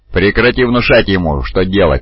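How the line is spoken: Growled. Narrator (Russian): прорычал другой голос

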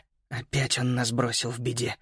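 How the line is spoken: Barely audible. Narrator (Russian): еле слышно добавил Макс

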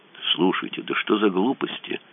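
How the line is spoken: Frightened mumble. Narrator (Russian): промямлил Мазур, очень даже испуганно

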